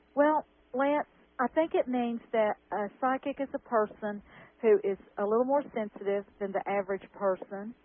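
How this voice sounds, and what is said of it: Noticeable regional accent. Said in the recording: “I recognize your accent.”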